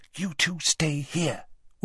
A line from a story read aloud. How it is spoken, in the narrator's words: whispered Hermione